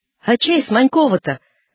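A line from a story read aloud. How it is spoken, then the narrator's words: Shouting into ear. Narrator (Russian): спрашивал Данила Степаныч и кричал на ухо Степан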